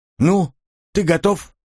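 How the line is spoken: Abrupt, playful boyish tone. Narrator (Russian): Резко свернул разговор, задорная мальчишеская улыбка

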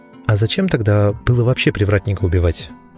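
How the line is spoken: Gentle question. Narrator (Russian): ласково поинтересовался я

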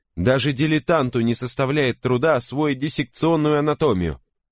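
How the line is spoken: Loud interruption. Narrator (Russian): перебил Гудсер достаточно громким голосом

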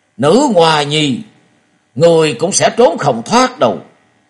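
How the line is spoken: Angry roar. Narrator (Vietnamese): Võ Đan Cuồng Đạo nổi giận gầm lên một tiếng và nói

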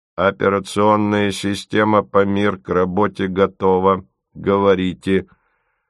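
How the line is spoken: Metallic announcing voice. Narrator (Russian): Ципа объявил металлическим голосом

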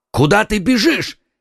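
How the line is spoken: Two voices shouting. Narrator (Russian): крикнули ему вслед оба мушкетера

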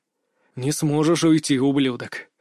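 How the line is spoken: Hiss. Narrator (Russian): прошипел я

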